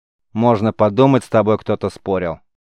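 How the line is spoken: Grumbling man. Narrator (Russian): пробурчал мужчина

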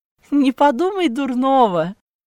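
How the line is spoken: Laughing. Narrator (Russian): засмеялась фрау Хильда

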